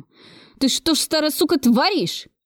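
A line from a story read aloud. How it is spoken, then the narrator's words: Howling. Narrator (Russian): взвыл он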